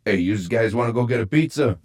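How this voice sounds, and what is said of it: Put-on New Jersey accent. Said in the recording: “do great voice impersonations. ... That are more regionally accurate. Here's Southwest Trenton, New Jersey. ... That's pretty general tri state”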